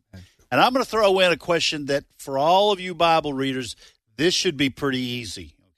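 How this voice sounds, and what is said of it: Full-blown Southern preacher accent. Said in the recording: “went full blown Southern accent preacher”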